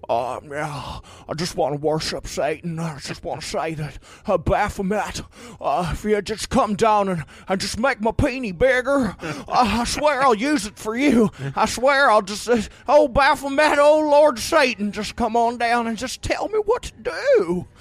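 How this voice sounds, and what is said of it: Imitates another person's voice. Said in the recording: “That's my Jimmy Stewart impression. It slid into Don Knotts there for a second”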